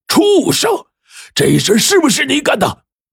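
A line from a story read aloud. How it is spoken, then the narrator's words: Angry roar. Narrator (Chinese): 老爹大吼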